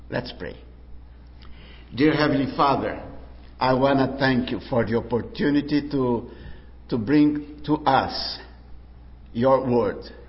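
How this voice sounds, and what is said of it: Speaks English with a foreign accent. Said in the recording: “I would love to have an accent corrector ... that accent corrector”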